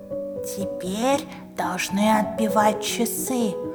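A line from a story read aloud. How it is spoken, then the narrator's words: Muttered. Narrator (Russian): пробормотал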